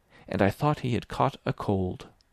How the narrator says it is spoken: Verloc muttered at the wall

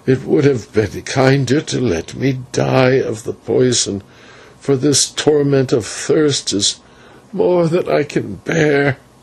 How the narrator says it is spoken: He groaned and was silent for a while, then said

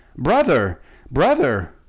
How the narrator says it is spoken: Shaggy Man cried aloud

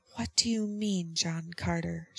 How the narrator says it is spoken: she whispered

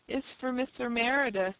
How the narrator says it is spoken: she lisped

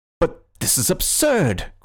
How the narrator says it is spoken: cried the policeman, with an excitement uncommon in persons of his figure and costume

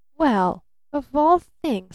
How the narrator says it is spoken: stammered Barton

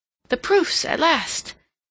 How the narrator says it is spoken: Seal looked up with renewed hope in her eyes, and exclaiming

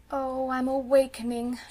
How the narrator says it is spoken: said mournfully

